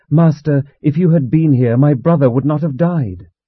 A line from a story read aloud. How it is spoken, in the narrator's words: exclaiming